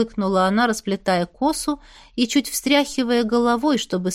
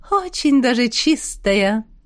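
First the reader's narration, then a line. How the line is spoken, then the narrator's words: Sinister chuckle. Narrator (Russian): Зловеще хохотнула Настя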